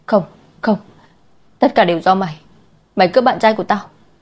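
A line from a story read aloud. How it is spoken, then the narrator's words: Screaming. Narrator (Vietnamese): Quý Tư Tư hét lên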